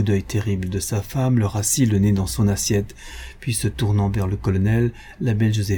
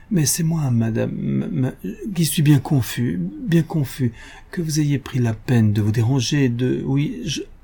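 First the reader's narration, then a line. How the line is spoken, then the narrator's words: Flustered stammering. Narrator (French): Le bon monsieur Dumanet, ému, décontenancé, il balbutiait tout ahuri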